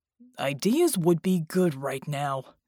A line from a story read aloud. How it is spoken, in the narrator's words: the giant grunted